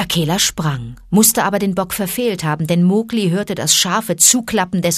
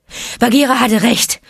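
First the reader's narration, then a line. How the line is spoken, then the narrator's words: Panting. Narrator (German): keuchte er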